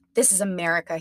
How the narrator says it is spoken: growled

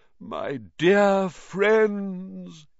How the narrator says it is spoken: he said mournfully

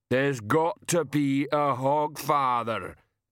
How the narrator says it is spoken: Banjo rumbled

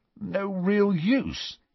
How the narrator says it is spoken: said Ron in a strained voice

